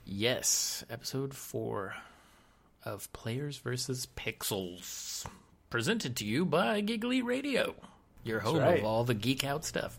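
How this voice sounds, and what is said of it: Mock announcer voice. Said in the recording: “I was just trying to go into my announcer voice there.”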